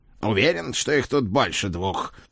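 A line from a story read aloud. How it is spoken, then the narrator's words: Growl. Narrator (Russian): прорычал он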